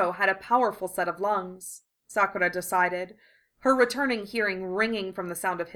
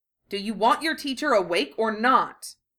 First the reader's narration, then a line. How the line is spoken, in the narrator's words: Jiraiya snapped at him